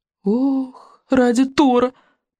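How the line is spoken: Groaning. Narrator (Russian): простонал Рубинок

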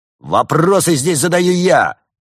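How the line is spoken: Barked order. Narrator (Russian): рявкнул капитан

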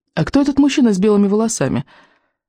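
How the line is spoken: Abrupt female question. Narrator (Russian): спросила я, резко меняя тему

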